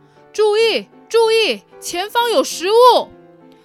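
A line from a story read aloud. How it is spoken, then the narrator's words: Loud announcement. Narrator (Chinese): 蚂蚁大队长大声的说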